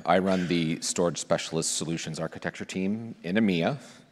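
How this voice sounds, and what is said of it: German accent. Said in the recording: “As you can clearly tell from my accent, uh, I live in Berlin, Germany.”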